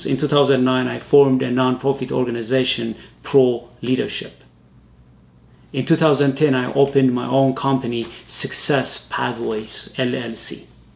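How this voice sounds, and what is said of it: Speaks with a foreign accent. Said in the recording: “because of my accent, I couldn't be able to serve people outside of my own community and the immigrant communities. I believed that my accent”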